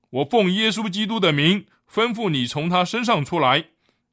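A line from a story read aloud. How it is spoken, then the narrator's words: Annoyed command. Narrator (Chinese): 保罗就心中厌烦，对那鬼说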